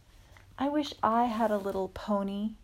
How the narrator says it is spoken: sighed Mindy

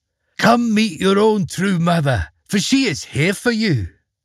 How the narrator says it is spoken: she cried out in a warm voice

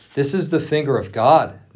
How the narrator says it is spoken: the magicians exclaimed

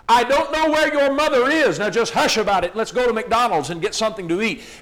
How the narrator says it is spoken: the father shouted

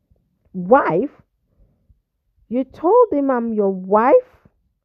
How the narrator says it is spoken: Daphne exclaimed loudly

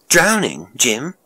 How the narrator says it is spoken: the girl exclaimed

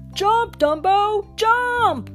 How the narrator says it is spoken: shouted the clowns

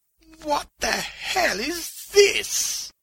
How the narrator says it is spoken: the old man whimpered

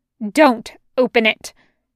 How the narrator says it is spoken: Gertrude snaps

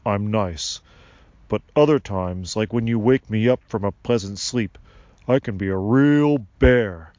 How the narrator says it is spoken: Sylvanus barked

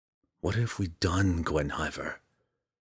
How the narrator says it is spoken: Driz whispered

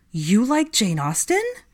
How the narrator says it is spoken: Theo chuckled

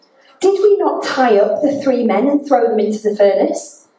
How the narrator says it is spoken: suddenly, Nebuchadnezzar in amazement and exclaimed to his advisors

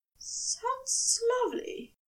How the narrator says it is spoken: Aziraphale rasped

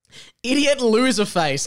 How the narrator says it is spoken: Neville shouted

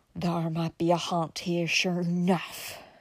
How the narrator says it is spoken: whispered hoarsely

